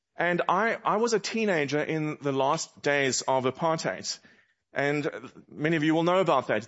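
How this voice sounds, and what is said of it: South African accent. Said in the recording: “this accent is that you're hearing, well, it's a South African accent.”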